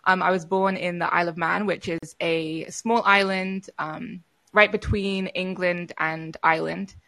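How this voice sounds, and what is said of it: Mixed accent with British tones. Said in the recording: “I have a very weird combined accent now, but you'll hear the British accent in me.”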